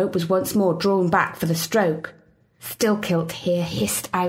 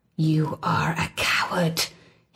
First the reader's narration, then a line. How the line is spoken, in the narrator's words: hissed the lakeman